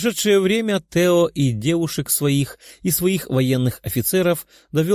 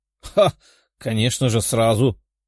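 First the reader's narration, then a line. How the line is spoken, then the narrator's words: Short laugh. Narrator (Russian): хохотнул одаренный на пике развития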